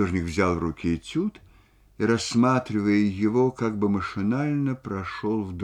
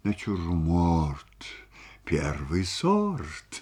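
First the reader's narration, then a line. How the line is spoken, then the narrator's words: Muttering. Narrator (Russian): бормотал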